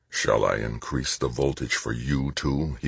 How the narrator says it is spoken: growled

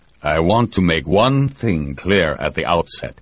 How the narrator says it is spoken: told, almost growling

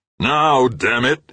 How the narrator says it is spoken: roared

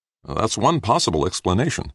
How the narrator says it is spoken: Brad answered

